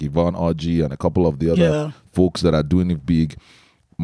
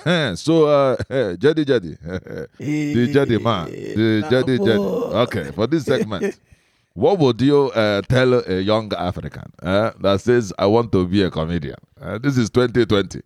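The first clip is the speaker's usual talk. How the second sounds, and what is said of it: Put-on Igbo Nigerian accent. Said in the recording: “let me switch into my accent ... Mine is an Igbo man.”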